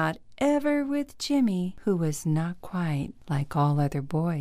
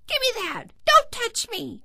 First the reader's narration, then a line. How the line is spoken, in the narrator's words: Jimmy's brothers and sister would yell and fight